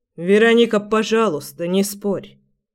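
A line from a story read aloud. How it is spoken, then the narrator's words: Tired. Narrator (Russian): сказал устало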